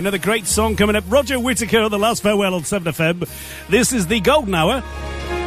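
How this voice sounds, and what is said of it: Usual voice. Nothing is said of it.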